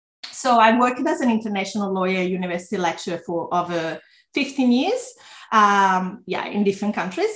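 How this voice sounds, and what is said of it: Slight Italian accent. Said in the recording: “I'm originally from Italy, if you have a bit of an accent”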